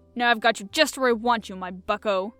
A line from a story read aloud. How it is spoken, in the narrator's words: he exclaimed gleefully